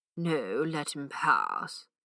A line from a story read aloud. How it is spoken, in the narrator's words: said Father Brown, with a strange deep sigh that seemed to come from the depths of the universe